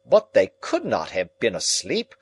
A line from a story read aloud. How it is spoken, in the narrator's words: cried Lord John